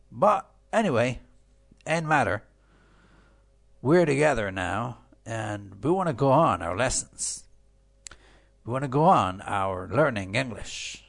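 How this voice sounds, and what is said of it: Poor, slightly off voice quality. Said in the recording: “I caught a little cold ... my voice is a bit poor. I mean, the quality of my voice is a bit cold”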